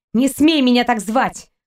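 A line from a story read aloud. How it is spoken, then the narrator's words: Girl snorting. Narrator (Russian): фыркнула девушка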